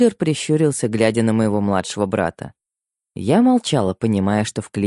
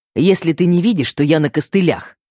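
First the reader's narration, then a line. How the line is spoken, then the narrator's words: Snapped retort. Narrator (Russian): огрызнулся Феликс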